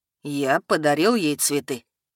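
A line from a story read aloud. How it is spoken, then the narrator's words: Mournful tone. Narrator (Russian): поведал скорбным тоном Эдгард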